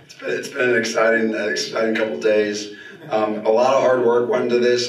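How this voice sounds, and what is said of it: Hoarse, strained voice. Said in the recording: “Sorry I lost my voice.”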